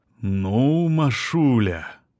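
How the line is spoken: Drawn out, amazed. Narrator (Russian): протянул он с изумлением

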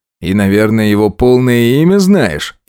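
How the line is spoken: Snide question. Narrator (Russian): ехидно уточнил

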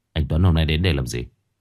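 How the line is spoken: Cold, impatient. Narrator (Vietnamese): Báu không muốn mất thời gian, liền lạnh lùng

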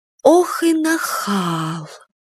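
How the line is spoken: Weary, plaintive. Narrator (Russian): Обмякшая от переживаний Юля жалобно сказала

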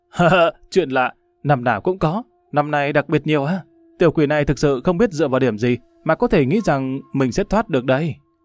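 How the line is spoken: Loud laughing. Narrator (Vietnamese): Lâm Văn Vinh cười to

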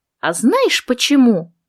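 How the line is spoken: Joyful question. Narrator (Russian): так же радостно спросила я

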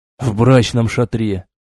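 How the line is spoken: Forced out. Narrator (Russian): выдавил Зид

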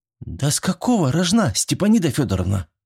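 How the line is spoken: Tired sigh. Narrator (Russian): устало вздохнула Зинаида

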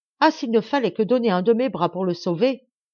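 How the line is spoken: Exclaiming at last. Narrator (French): s'écria-t-il enfin

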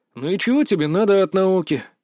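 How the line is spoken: Bored. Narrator (Russian): скучающим тоном поинтересовался

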